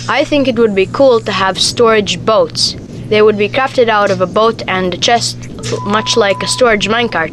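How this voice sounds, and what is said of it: Made-up accent. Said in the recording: “I think I like your accent. ... I think you just kind of made up that accent.”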